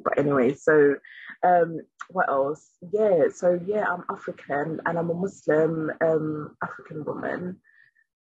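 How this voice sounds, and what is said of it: British-sounding accent. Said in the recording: “I've become really acculturated to British, or kind of this Western culture, which you can probably hear from my accent”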